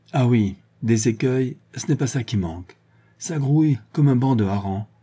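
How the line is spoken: Exclaiming. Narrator (French): s'écria Véronique

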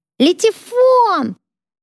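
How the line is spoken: Yelling. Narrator (Russian): Сати заорал

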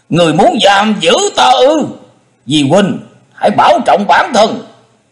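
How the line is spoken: Angry shout. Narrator (Vietnamese): hắn hét lớn

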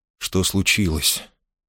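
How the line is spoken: Soft question. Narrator (Russian): мягко спросил Марвуд

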